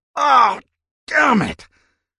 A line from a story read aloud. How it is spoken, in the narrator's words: grunted